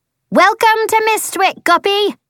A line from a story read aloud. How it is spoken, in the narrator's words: Without slowing, Phoebe pounds across a little dock, skids to a halt, then shouts